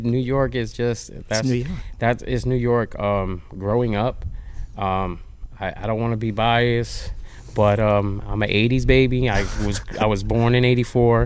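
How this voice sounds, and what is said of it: New York accent. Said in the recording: “How come you still got that New York accent, man?”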